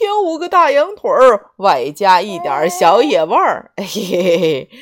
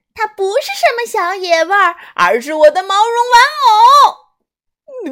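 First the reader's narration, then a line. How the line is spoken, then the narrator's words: Crying out. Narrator (Chinese): 虎宝宝叫起来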